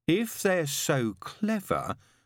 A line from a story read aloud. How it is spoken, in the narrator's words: said Brian slowly